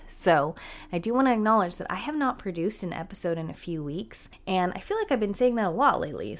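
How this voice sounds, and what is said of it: Unwell, under-the-weather voice. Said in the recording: “I don't know if you can tell in my voice, but I have not been feeling good... I've been really under the weather.”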